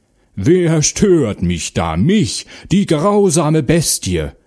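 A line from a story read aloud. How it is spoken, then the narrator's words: Bear roaring terribly. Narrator (German): brüllte der Bär fürchterlich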